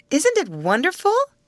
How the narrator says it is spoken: exclaimed a girl

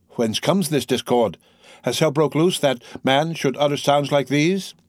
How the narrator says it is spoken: exclaiming

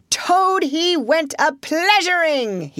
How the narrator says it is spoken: he yelled

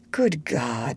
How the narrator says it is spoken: he groaned

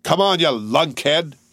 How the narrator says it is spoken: he roared

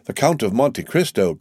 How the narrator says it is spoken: cried Morel

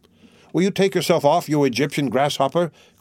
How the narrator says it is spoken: cried a sharp voice

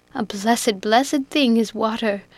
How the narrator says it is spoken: exclaimed Biddy, this time finding the relief she sought

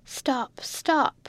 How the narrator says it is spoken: a feeble voice cried from the straw

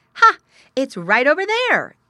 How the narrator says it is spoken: exclaimed Squinty to himself

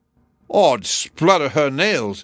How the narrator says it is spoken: cried the Welsh giant, who was ashamed to be outdone by such a little fellow as Jack

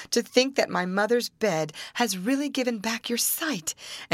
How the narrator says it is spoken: cried the princess

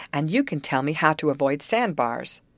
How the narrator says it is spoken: exclaimed Betty

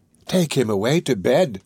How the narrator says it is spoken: cried Fagin

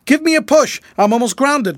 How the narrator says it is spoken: called Fred frantically

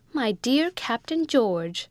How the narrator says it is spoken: cried little Rebecca in an ecstasy

